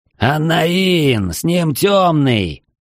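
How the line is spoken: Roar. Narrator (Russian): взревел архимаг

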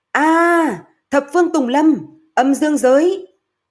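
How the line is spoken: Anguished loud shout. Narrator (Vietnamese): Hạ Ngọc Long nhìn binh lính của mình, hết người này tới người khác chết thảm bên trong biển lửa, liền hét to

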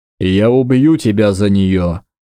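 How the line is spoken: Growling threat. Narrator (Russian): прорычал

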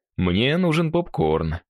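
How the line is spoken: Amused snort. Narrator (Russian): хмыкнул Игорь

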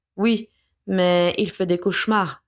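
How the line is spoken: Toneless reply. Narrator (French): répondit-elle d'une voix blanche

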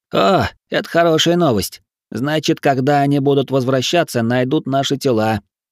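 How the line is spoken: Almost pleased snort. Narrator (Russian): почти довольно хмыкнул эльф

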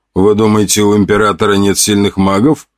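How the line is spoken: Wry snort. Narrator (Russian): хмыкнул Соловьев

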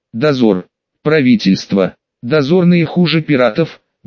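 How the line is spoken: Hollow, muffled reply. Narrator (Russian): глухо отозвался Луфи

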